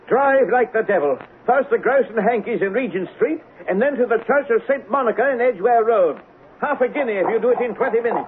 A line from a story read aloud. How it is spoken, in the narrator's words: shouted